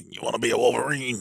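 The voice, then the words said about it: Dark, deep, raspy voice. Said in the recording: “a dark, deep, raspy voice”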